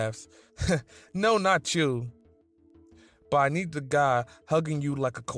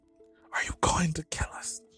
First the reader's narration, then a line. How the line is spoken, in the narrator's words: You whisper